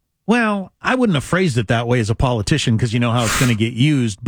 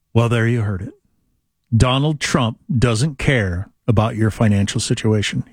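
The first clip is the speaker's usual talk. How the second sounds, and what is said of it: Mock cable news anchor delivery. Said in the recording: “my MS Now impersonation”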